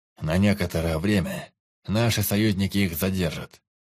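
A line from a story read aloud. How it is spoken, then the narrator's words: Calm, father. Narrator (Russian): спокойно изрек отец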